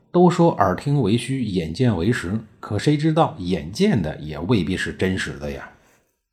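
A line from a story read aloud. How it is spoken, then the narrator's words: Ashamed, sighing. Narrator (Chinese): 孔子大为的羞愧，感叹地说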